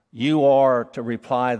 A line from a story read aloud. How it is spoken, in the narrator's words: the Lord says